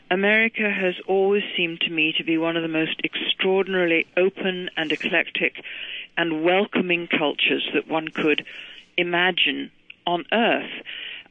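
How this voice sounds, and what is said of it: Scottish accent. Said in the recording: “you can tell from my voice, I wasn't born in America, I'm a Scot.”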